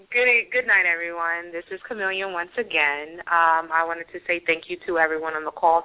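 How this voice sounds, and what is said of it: Sensual radio voice. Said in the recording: “such a great and sensual radio voice”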